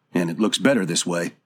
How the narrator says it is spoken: Dobbs muttered

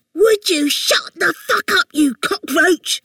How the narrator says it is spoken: This wail, hissing

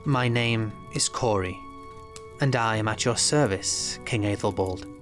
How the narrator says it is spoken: Corey said smoothly

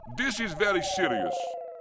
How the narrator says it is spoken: he shouted

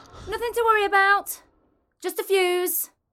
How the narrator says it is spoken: I heard Mum shout

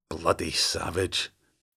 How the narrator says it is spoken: he muttered, nostrils flaring in distaste

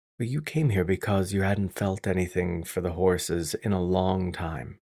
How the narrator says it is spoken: I said softly

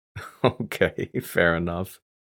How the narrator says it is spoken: I said, chuckling

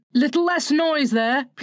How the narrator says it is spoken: Peter called out, determined that she should have fair play

